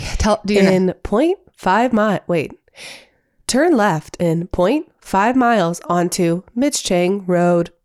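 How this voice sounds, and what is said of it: Imitated GPS navigation voice. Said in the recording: “do my navigation voice ... That is so good.”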